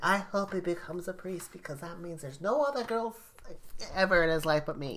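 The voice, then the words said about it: Odd put-on character voice. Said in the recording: “That was a weird voice I did. I don't know what that was.”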